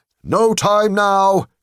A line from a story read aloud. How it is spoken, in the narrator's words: cried the raftman